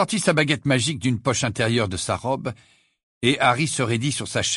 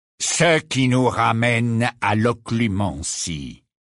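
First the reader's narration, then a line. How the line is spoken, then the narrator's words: Cold, indifferent tone. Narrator (French): dit Rogue d'un ton froid et indifférent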